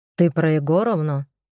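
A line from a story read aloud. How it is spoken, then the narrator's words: Amused snort. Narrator (Russian): хмыкнул тот смешливо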